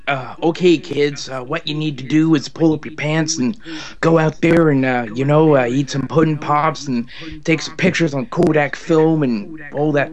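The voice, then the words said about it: Imitates another person's voice. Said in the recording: “Can you do a Bill Cosby impression? ... I do very terrible one.”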